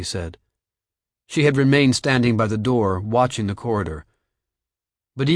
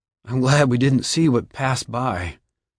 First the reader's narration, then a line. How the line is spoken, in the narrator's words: Josh said shakily